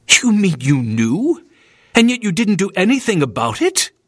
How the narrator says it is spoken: William snapped indignantly

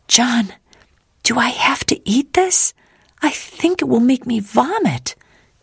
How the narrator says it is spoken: she whispered

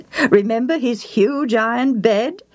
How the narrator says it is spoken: Eliad chuckled

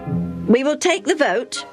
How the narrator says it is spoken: Chairman Benny announced in a determined voice

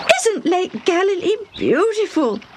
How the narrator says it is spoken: Debbie exclaimed

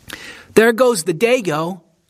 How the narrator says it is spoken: one boy yelled

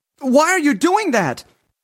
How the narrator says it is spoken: he yelled

